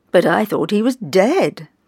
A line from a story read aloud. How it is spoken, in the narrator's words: cried one woman